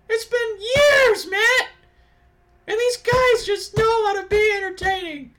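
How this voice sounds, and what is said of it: Imitates another person's voice. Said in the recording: “Was that your Drake Maverick impression?”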